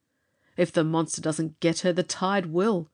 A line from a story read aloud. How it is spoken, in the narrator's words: he said bitterly